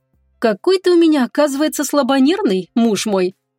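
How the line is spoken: Calm, cheerful. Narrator (Russian): успокоившись, произнесла она весело

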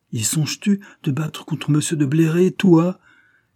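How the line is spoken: Exclaimed. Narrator (French): s'écria Monsieur de Lanta

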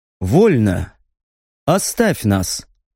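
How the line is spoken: Quiet, emotionless. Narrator (Russian): Негромко и безэмоционально отзывается хозяин кабинета

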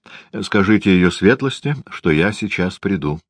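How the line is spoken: Dry, curt. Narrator (Russian): сказал он сухо

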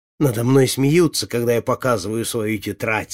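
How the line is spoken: Plain. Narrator (Russian): сказал Людовик

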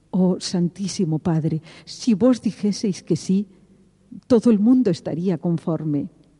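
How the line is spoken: Pleading voice. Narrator (Spanish): dije con voz suplicante

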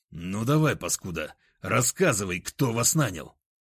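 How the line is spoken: Angry hiss. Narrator (Russian): зло прошипел я

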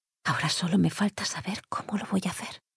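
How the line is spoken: Murmur to oneself. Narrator (Spanish): murmuró para sí

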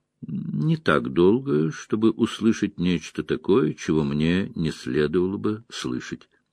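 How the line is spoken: Calm reply. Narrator (Russian): спокойно ответила Айс Седой

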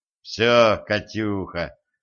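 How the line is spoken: Gloomy. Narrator (Russian): мрачно сказал Денис

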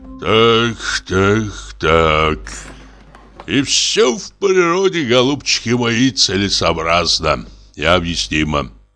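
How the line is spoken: Sighing. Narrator (Russian): вздохнул Самойленко

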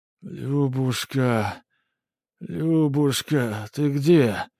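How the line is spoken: Dazed groaning. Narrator (Russian): застонал ее муж, приходя в себя от тряски

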